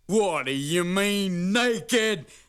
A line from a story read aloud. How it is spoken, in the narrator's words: howled